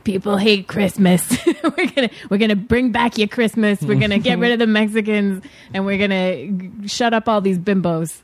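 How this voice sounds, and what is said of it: Imitates another person's voice. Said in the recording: “That's my Donald Trump impression. It's pretty good, right?”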